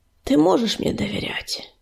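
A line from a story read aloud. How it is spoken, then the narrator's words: Conciliatory after deep sigh. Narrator (Russian): Глубоко вздохнув, примирительно ответил он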